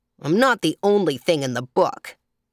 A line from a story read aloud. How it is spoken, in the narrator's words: remarked crossly